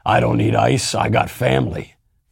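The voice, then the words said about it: Imitates another person's voice. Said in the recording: “in a Vin Diesel voice,”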